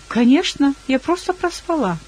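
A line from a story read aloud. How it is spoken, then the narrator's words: Cheerful. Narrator (Russian): весело ответила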